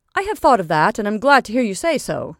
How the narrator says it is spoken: returned the lawyer still more cheerfully

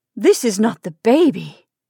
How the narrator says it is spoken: she exclaimed in startled tones

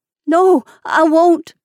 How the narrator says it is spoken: sobbed Submit

